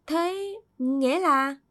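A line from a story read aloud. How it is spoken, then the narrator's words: Hesitant question. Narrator (Vietnamese): Nam ngập ngừng hỏi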